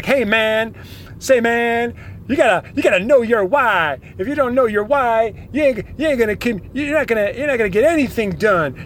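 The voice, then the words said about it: Imitates a pushy coaching guru. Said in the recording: “this is my impression of the coaching gurus out there that are terrible”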